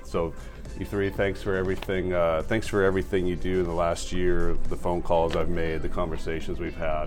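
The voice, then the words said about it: Raspy, run-down voice. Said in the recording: “We're all run down, haggard. ... My voice is a little raspy”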